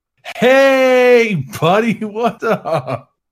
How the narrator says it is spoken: Billy very loudly said

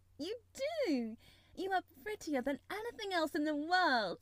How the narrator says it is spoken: She chirped and talked and coaxed

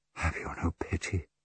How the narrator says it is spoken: Her voice even lower, almost a whisper, Lucia said desperately

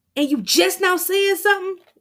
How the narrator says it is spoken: Damien yells

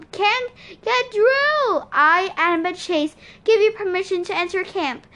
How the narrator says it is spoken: Tyson yelled

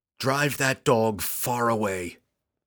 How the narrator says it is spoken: he yelled to Gwenhyper

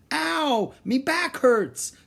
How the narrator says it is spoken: Stinky cried

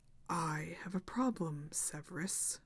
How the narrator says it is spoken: said Voldemort softly

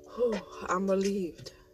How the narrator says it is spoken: Patricia says with a sigh

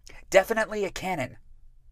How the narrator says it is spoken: Rémy said loudly, over the top of Ipomée and Amédée

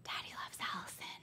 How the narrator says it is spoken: would pause on the stair closest to my door and whisper

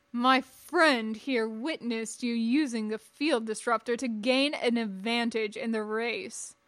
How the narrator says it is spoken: Jabath thundered on, unperturbed

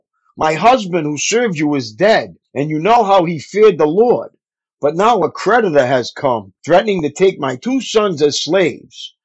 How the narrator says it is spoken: the widow of a member of the group of prophets cried out

